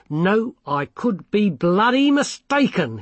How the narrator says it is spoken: he shouted

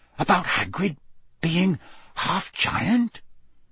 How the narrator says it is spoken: he whispered

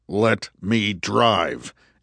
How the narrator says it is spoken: Andrew said through gritted teeth

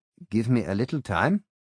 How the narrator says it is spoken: I said

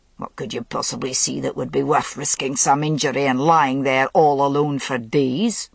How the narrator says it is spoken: demanded Agravain crossly

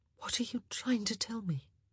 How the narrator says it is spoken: She whispered

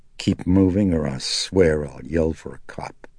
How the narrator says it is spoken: Chris said coldly

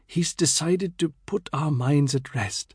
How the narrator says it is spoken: Amina whispered to Mary

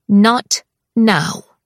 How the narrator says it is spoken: she says in a firm, even tone

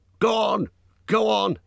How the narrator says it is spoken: he shouted

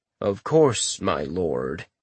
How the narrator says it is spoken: the remnant replied in his almost deadpan voice

